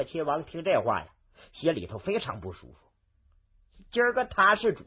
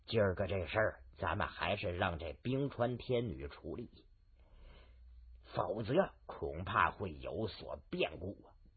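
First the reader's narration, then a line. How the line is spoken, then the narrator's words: Hushed voice. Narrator (Chinese): 龙鳞角压低了声音说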